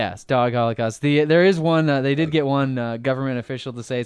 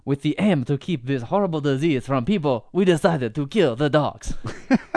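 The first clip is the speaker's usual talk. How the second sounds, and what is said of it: Put-on Chinese accent. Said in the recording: “That's a great Chinese accent.”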